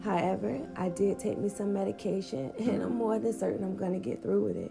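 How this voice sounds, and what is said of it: Congested, cold-affected voice. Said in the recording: “as you can hear in my voice, it sounds like I'm coming down with a cold.”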